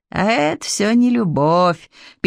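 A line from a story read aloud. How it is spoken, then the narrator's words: Sad remark. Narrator (Russian): печально заметил Змей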